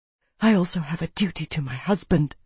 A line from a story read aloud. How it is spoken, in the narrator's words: she whispered back